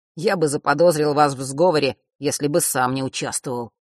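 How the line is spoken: Grumbling. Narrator (Russian): пробурчал

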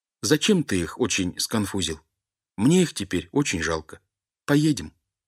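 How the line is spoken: Sad, sovereign. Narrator (Russian): государь Платову грустно говорит

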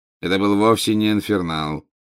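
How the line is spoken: Bored interrupting voice. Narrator (Russian): скучающим голосом прервал его Снег

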